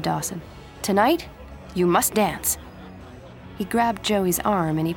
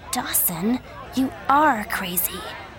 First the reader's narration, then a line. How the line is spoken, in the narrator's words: Joey said quietly